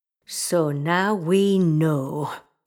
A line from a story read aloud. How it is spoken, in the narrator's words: Isherwood growled